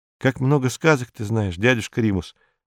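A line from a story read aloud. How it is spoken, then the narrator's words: Sighing boy, reluctant. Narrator (Russian): вздохнул мальчик, которому очень не хотелось расставаться со стариком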